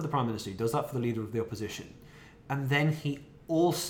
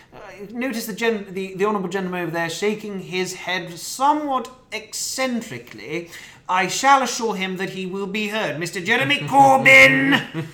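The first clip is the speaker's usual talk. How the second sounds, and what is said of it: Impression of parliamentary speaker calling. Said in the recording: “pretty good impression ... Especially the Corbyn ... Very good.”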